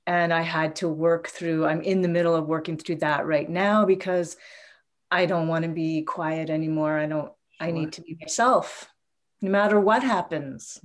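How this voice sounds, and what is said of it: Emotional, strained voice. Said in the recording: “I'm really in it. You can probably hear it in my voice. ... I can hear it.”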